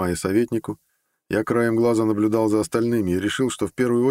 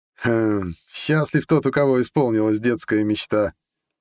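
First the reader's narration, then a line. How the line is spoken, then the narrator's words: Laughing. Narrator (Russian): рассмеялся советник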